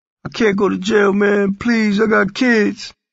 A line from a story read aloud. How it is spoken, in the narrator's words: he pleaded